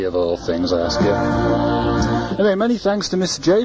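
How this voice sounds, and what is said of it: Usual voice. Nothing is said of it.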